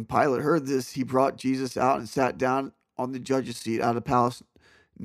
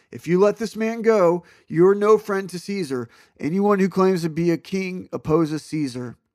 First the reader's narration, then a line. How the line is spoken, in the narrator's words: the Jewish leaders kept shouting